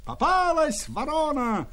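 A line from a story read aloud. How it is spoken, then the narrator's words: Shouting group. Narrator (Russian): кричали ляхи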